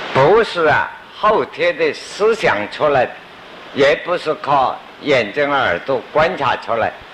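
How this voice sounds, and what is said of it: Regionally accented Mandarin. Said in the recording (Chinese): “我的口音念慧智也念惯的啊”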